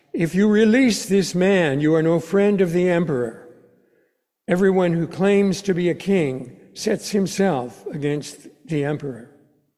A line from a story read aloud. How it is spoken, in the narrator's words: the Judean leaders cried out